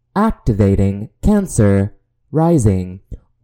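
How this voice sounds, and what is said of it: Alien robot voice. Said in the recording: “in the alien robot voice”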